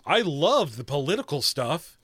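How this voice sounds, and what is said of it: Sarcastic tone. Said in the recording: “Is that sarcasm? ... it was sarcasm?”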